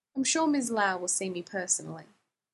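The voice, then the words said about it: Smooth, slight Southern American accent. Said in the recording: “he wore black and talked smooth ... giving it a little bit of a southern accent”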